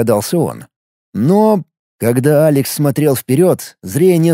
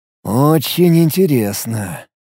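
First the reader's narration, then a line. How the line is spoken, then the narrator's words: Drawn-out drawl. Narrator (Russian): протянул Алекс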